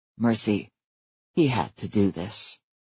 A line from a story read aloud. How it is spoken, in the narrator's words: said in a soft voice